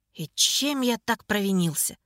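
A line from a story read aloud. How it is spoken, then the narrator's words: Sad sigh. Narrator (Russian): Печально вздохнул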